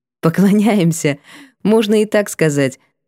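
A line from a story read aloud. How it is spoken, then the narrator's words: Laughing. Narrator (Russian): засмеялась я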